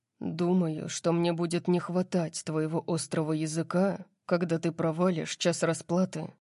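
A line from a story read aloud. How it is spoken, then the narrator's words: Muttered. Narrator (Russian): пробормотал он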